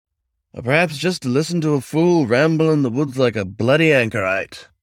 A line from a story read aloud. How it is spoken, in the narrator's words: the fox grumbled